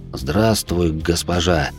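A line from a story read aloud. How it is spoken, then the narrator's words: Growl. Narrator (Russian): прорычал я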